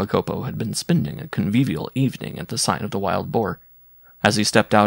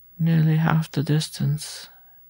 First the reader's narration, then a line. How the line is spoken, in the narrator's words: she repeated in a lifeless voice